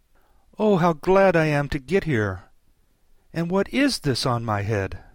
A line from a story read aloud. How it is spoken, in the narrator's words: she exclaimed in a tone of dismay